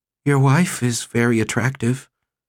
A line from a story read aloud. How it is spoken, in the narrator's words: he sighed